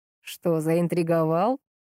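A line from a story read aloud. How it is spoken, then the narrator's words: Amused chuckle. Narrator (Russian): хохотнул дядька родной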